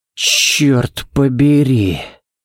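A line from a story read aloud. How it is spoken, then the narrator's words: Breathless exclamation. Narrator (Russian): Выдохнул Балок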